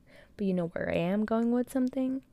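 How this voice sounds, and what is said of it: Whispering. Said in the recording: “I'm whispering again”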